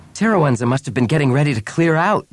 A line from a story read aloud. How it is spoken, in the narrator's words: Bria exclaimed